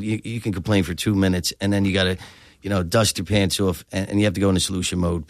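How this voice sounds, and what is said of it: South Philadelphia accent. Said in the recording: “Tell that from your accent.”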